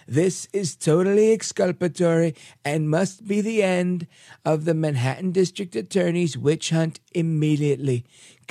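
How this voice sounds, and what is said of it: Imitates another person's voice. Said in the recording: “I should probably do this in my Trump impression, right? ... That's my impression of Donald Trump. Probably not a good one.”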